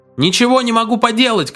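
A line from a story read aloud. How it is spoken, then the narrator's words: Shouting, flushed and sweaty. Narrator (Russian): крикнул, утирая пот с раскрасневшегося лица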